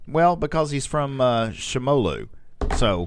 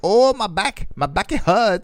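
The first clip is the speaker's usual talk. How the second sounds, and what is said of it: Put-on made-up foreign accent. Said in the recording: “Why does he talk like that? ... That's a Shimolan accent.”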